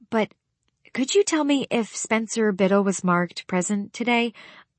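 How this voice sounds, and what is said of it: Very polite, sweet voice. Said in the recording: “in my most polite voice”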